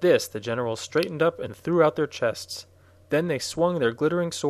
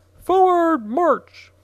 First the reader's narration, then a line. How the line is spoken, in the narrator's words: the captain screamed to the private